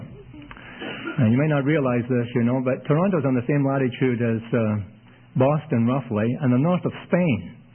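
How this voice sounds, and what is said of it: Scottish accent. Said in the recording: “If my accent puzzles you or bothers you ... Scotland's way far north of Toronto. And that's where I'm from, and that explains my accent.”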